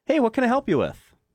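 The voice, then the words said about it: Customer service voice. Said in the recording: “my customer service voice”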